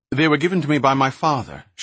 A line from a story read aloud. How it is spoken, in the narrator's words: Shay lied quickly